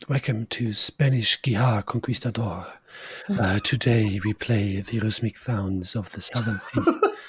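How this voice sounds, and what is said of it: Put-on stereotyped Spanish accent. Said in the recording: “this slightly racist accent”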